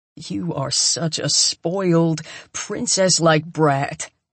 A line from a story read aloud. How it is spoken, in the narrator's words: he snarls at me